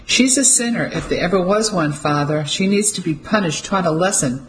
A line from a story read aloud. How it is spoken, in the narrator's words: someone shouted from the crowd